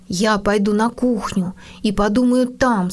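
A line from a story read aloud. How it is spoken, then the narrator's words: Plain. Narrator (Russian): сказал он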